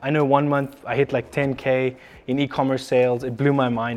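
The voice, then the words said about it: Speaks with a foreign accent. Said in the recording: “foreign accent”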